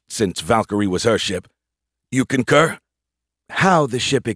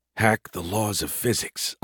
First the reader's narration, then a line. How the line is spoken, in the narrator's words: I muttered to myself